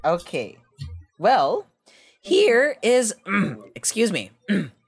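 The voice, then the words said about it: Voice cracks mid-sentence. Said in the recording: “my voice just cracked ... I think I'm going through puberty again”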